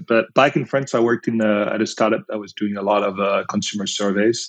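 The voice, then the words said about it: French accent. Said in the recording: “I'm originally from France, as you can probably tell with my accent.”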